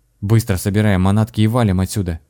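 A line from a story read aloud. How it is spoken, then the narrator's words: Sudden sharp announcement. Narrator (Russian): неожиданно резко объявил аптекарь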